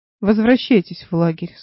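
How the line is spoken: Plain. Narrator (Russian): сказала она старику

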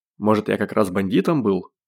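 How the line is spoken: Skeptical snort. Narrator (Russian): хмыкнул Костя

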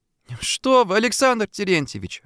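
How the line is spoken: Laughing. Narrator (Russian): рассмеялась Дуся

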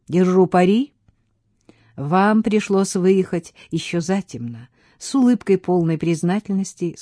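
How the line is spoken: Plain. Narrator (Russian): сказала Офелия

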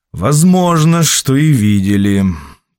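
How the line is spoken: Drawling. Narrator (Russian): протянул гость

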